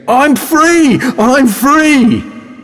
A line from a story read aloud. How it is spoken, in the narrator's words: Unable to believe his luck, he runs around the streets yelling